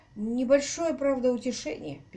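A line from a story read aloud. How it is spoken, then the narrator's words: Sad admission. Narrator (Russian): печально признался Тейт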